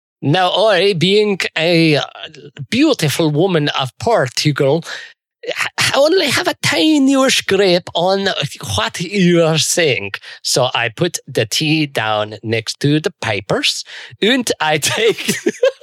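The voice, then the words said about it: Put-on Portuguese accent. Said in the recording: “doing a great Portuguese accent”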